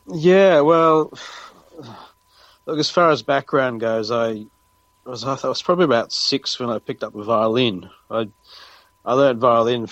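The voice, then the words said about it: Australian accent. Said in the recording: “you are Australian ... It's either Australian or New Zealand with this accent ... Australian, yes, definitely.”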